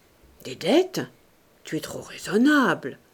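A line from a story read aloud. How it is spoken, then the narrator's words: Smiling murmur. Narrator (French): murmura Sandoz en souriant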